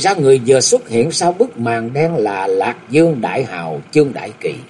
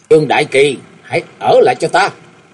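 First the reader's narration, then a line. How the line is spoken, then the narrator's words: Loud young man's shout. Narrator (Vietnamese): miệng của chàng quát lớn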